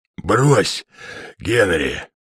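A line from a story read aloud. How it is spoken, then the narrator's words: Coughing wheeze. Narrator (Russian): прохрипел майор Фезертон, кашлянув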